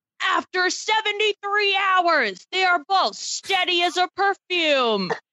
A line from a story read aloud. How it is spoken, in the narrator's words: Jeff Probst exclaimed